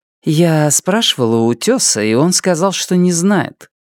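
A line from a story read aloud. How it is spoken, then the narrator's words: Calm, practical answer. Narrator (Russian): Нефрита, всегда более практичная, спокойно ответила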